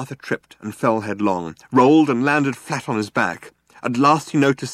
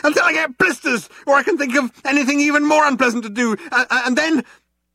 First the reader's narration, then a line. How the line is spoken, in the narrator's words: yelled Arthur, still running